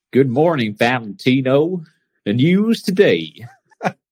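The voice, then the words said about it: Put-on Southern US accent. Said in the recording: “Let's hear your southern accent ... That's pretty good. That's pretty good.”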